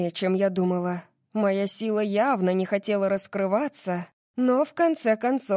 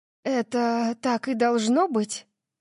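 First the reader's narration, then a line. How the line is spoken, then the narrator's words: Sigh. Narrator (Russian): вздохнула я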